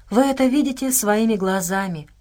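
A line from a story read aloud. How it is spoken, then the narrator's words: Sigh. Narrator (Russian): вздохнула Нелл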